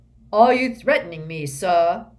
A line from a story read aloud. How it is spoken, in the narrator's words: He said, so loudly that passers-by actually turned to stare